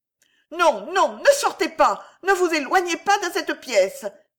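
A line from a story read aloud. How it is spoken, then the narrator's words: Frantic cry. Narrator (French): s'écria Alice hors d'elle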